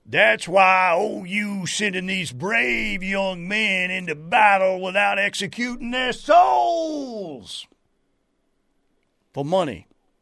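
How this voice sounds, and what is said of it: Bad Colonel Frank Slade impression. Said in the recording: “That was Colonel Frank Slade. ... Scent of a Woman. A very bad impression, by the way.”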